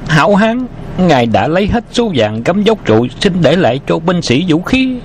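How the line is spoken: Panicked cry. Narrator (Vietnamese): Hắn ta hoảng hốt kêu lên

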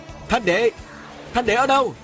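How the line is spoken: Loud calling out. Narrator (Vietnamese): Viên Thừa Chi lớn tiếng hô hoán

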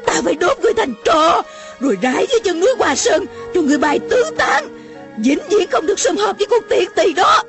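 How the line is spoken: Jealous, burning shout. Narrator (Vietnamese): Lửa ghen bốc lên, lòng bỗng như bị đốt, Mụ la lên

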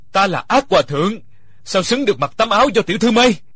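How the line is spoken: Mad laughter, loud. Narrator (Vietnamese): Địch Dân sằng sặc cười điên dại, lớn tiếng nói

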